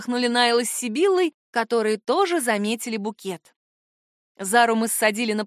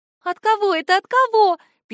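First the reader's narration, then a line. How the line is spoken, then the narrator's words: Squeaky voice. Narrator (Russian): пищала Сибилла над моим плечом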